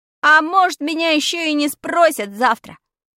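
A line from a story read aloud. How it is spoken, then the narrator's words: Shouted after someone. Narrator (Russian): крикнул я ей вдогонку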